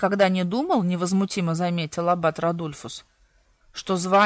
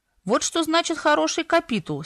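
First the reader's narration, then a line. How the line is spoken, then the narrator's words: Beaming exclamation. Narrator (Russian): сияя воскликнул Зерло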